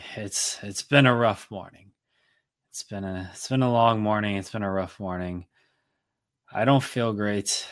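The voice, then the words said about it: Tired-sounding voice. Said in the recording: “You sound tired.”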